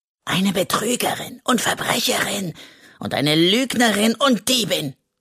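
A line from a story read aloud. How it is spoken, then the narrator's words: Hiss. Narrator (German): zischt er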